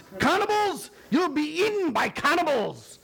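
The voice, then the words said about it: Put-on Scottish accent, exclaiming. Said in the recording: “I can hear it in the Scottish kind of accent.”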